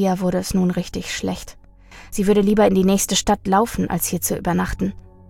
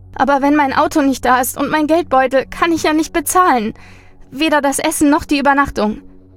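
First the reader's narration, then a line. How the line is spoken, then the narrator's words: Sniffling whimper. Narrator (German): Sie schniefte noch einmal und wimmerte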